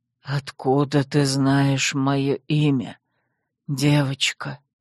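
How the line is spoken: Almost whispered. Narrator (Russian): Почти прошептал он

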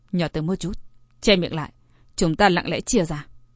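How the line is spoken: Low voice. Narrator (Vietnamese): Liêu Nghiêu hạ giọng nói

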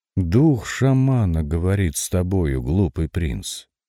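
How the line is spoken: Plain. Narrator (Russian): сказал сокол

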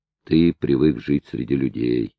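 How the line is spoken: Sad reply. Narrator (Russian): ответил печально

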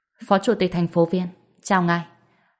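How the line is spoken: Surprised, then smiling. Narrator (Vietnamese): Hàn Đông hơi sửng sốt, lập tức liền mỉm cười nói

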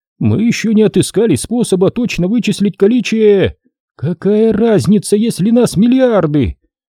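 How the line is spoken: Loud exclamation to crowd. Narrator (Russian): Воскликнула Тул, обращаясь к трибунам

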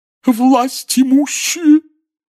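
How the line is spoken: Muffled, sobbing proclamation. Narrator (Russian): глухим рыдающим голосом возвестила Трелони

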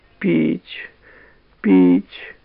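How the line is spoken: Whimpering. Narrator (Russian): хныкала она

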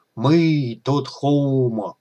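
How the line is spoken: Drawled. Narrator (Russian): протянул Акто

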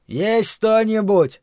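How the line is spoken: Shout. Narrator (Russian): крикнул он

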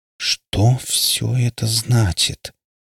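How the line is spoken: Slow, stunned. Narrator (Russian): медленно произнесла Регина, во все глаза глядя на чернокожего мужчину

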